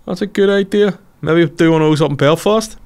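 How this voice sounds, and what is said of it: Deliberately bad impression of a friend. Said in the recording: “Worst impression ever.”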